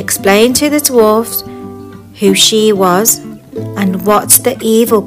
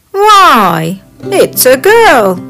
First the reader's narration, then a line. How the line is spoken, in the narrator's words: Doc cried out